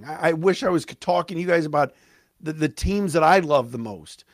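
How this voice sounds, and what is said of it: Excited voice cracking. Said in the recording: “I am so fired up ... my voice is cracking”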